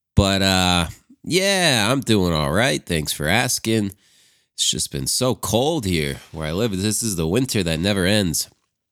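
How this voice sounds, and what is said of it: Nasal, congested voice. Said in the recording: “I got a little bit of a cold today, so excuse me if I sound a little nasally.”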